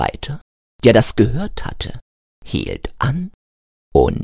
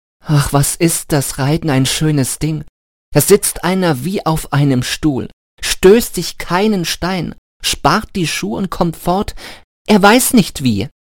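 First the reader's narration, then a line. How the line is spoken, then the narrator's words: Very loud. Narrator (German): sprach Hans ganz laut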